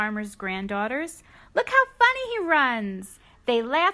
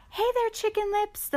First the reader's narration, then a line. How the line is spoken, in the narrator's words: the farmer cried